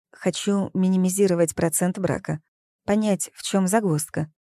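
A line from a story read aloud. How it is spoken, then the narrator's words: Feigned calm lie. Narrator (Russian): солгала я, стараясь вести себя естественно и спокойно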